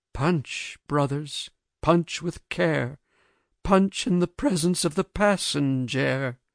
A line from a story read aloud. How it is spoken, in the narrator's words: said, without animation, without apparent consciousness